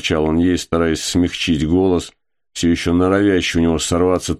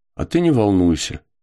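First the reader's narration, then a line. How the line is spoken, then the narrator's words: Calm and commanding. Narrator (Russian): сказала она спокойно и даже, пожалуй, властно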